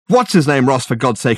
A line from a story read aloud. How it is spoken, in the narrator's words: exclaimed